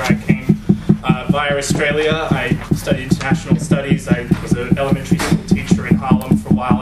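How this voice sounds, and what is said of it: Non-American English accent. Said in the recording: “As you can probably tell from my accent, I'm not from the United States”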